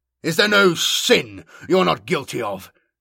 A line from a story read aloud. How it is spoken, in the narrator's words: he demanded hotly